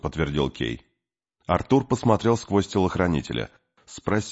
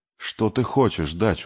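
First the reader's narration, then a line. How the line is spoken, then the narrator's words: Tired. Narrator (Russian): устало сказал Артур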